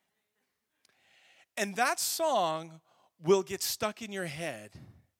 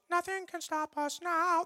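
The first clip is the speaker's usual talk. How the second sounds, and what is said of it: Mickey Mouse cartoon voice. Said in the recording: “my Mickey Mouse impersonation”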